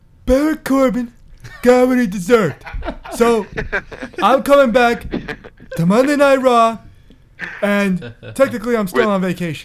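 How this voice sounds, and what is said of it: Kurt Angle impression. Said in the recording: “you gotta do your Kurt Angle impression right now.”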